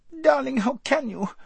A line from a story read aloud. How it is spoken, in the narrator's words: squeaked Lazareline